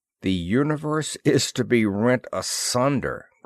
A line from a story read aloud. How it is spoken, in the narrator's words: grunted Ross